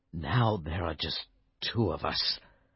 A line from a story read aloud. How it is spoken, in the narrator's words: King Arthur said sadly